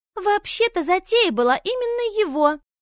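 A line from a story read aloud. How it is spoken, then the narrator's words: Exclaimed. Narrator (Russian): воскликнула Клэр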